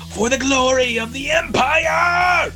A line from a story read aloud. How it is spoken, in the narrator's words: This one over here in front of Wynn shouts, you know, in Atlante